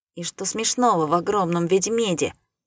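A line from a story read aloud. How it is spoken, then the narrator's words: Cold. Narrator (Russian): произнес я холодно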